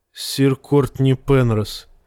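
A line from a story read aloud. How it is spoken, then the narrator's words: Sad. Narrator (Russian): печально молвила Бриена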